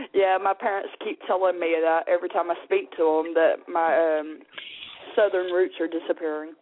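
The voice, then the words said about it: British-sounding accent, Southern accent gone. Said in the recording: “you got the accent ... that Southern accent seems to be gone. We got the British thing going on”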